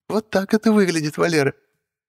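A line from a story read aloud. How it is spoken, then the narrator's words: Laughing witch. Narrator (Russian): Ведьма тоже смеялась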